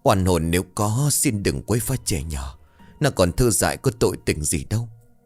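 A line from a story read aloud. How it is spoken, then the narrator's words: Old woman muttering. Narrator (Vietnamese): Bà cụ miệng của bà lẩm bẩm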